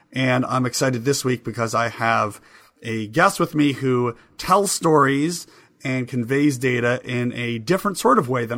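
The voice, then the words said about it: Hoarse voice. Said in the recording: “still with a hoarse voice”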